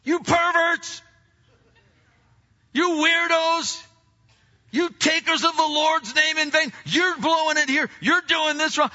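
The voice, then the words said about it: Shouting. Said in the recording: “we get all about shouting out at the darkness ... you're shouting out”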